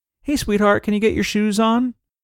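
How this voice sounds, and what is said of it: Sweet, gentle, overly nice voice. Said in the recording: “in your nicest voice.”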